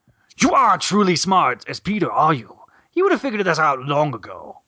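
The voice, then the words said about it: Imitates a cartoon character's voice. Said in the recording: “my best impression of it, is uh, the '90s show version of this character”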